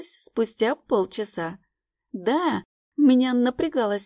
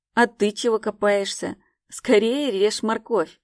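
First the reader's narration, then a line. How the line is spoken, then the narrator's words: Growling. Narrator (Russian): рыкнул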